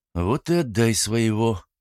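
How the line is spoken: Grumbled. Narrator (Russian): проворчал Максим

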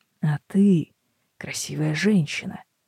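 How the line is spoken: Hoarse. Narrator (Russian): говорит он хрипло

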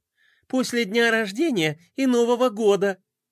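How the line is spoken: Joyful squeaky exclamation. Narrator (Russian): Пинки радостно запищала и воскликнула

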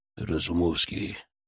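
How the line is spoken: Quiet. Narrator (Russian): тихо сказал он

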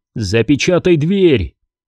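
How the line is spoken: Shouting. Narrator (Russian): крикнул он Т-3

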